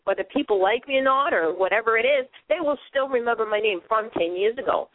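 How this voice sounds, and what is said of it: Boston accent. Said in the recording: “I sound like I stand out too with my Boston accent.”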